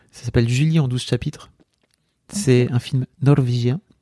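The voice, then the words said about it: Odd put-on accent. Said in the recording (French): “j'ai pris cet accent chelou”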